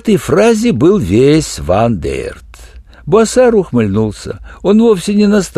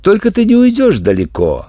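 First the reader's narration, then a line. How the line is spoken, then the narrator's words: Ingratiating, amused. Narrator (Russian): вкратчиво заканчивал Буассар, и его выцветшие глаза смеялись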